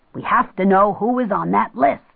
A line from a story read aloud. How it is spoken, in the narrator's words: Jim barked